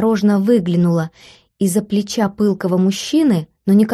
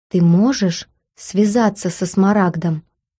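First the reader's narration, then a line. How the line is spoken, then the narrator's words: Very quiet question. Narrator (Russian): склонился к моему уху и очень тихо спросил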